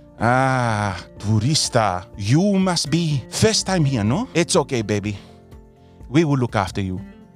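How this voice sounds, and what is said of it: Put-on European accent. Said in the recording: “in a very European accent, he says to me”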